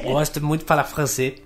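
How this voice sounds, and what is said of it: Fake French accent. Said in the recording (Portuguese): “Vocês gostam do meu sotaque francês?”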